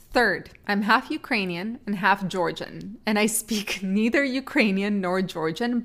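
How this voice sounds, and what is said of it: Accented English. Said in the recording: “despite me not being able to pronounce things, as you probably clearly can hear. But yeah, that's where you hear the accent from.”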